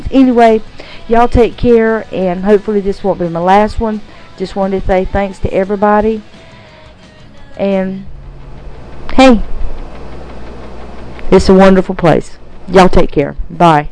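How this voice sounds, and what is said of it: Southern US drawl. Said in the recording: “please excuse the accent. While I don't live in the heart of Dixie, I certainly do live close enough to where I have that awful southern drawl”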